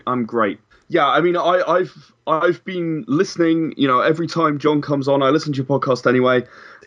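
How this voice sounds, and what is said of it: English accent. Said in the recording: “As some of the listeners may be able to notice from my accent, I'm actually from England.”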